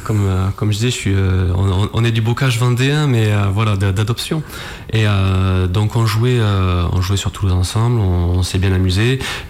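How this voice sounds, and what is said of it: Slight Toulouse southern French accent. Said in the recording (French): “on jouait précédemment sur Toulouse ensemble, donc ça s'entend à mon accent. ... Un petit peu, mais c'est adorable.”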